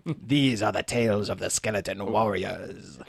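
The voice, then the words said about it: Christopher Lee impression. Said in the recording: “sounds an awful lot like someone doing a Christopher Lee impression.”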